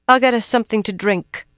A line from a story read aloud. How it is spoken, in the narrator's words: Min said in a tight voice